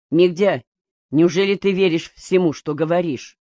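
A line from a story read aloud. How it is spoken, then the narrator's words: Plain. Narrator (Russian): спросил Юсин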